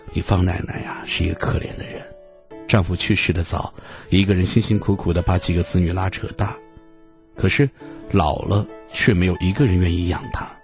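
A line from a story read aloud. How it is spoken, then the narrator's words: Sad sighing mother. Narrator (Chinese): 母亲叹了一口气儿，神色黯然的说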